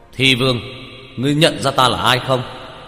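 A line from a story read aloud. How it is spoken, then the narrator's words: Loud call from afar. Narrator (Vietnamese): Lâm Tam Sinh cách xa mấy chục mét, cao giọng hướng Doanh Câu nói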